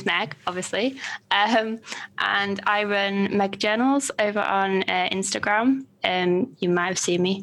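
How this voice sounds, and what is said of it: Northern English accent. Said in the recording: “you have an adorable accent. ... Yeah, Northern England.”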